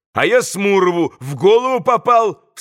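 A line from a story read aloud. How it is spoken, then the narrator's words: Boy's sharp cry. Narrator (Russian): вскрикнул мальчик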